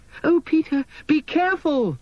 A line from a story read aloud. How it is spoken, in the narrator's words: cried Wendy as Peter darted out to confront his old enemy